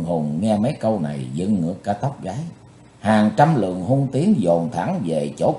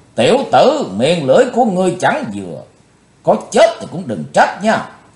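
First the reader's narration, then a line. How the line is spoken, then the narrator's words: Roaring. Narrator (Vietnamese): Bạch Phát Ma Cơ gầm thét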